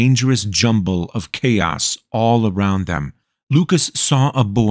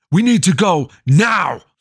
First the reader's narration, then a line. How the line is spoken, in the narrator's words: Frederick shouted